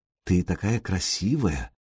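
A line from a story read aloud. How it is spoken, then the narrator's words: Whispered. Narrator (Russian): шепотом сообщил Сергей Синеглазки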